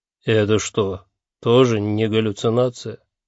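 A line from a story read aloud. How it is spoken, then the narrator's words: Unhappy question. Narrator (Russian): несчастным голосом осведомился Малдо Йос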